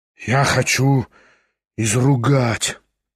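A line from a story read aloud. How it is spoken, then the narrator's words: Muttering. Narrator (Russian): пробормотал Кириллов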